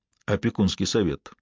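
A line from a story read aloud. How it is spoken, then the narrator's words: Quiet, worried. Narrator (Russian): сказал, негромко, но озабоченно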